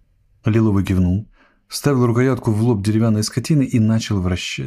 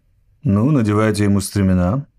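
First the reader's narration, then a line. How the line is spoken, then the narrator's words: Calm. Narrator (Russian): спокойно сказал Гэнши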